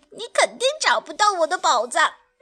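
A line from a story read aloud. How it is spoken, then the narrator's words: Giggling dinosaur. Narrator (Chinese): 恐龙阿瑟咯咯地笑着说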